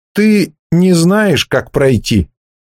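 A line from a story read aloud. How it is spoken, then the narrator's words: Uncertain. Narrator (Russian): неуверенно произнес Вегги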